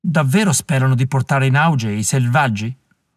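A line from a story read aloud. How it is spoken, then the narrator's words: Scornful remark. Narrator (Italian): commentò un terzo, in tono sprezzante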